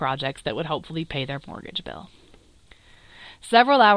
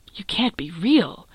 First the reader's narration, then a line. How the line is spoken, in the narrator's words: Reed said, gasping for breath